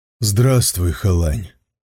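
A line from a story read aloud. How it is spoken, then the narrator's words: Tired. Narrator (Russian): устало сказал Сун Цзюй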